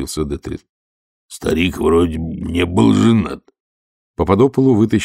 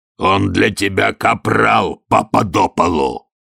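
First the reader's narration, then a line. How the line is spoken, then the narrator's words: Barking shout. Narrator (Russian): рявкнул Детрит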